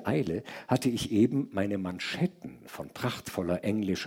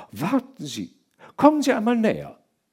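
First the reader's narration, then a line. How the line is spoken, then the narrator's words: Called out. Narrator (German): rief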